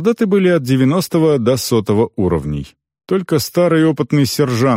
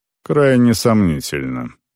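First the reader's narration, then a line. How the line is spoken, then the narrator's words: Grumbled. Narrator (Russian): пробурчал он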